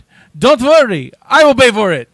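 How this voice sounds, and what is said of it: Bad put-on French accent. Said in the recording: “That's my bad French right there.”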